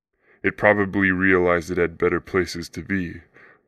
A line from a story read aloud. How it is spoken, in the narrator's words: the father of the family said, chuckling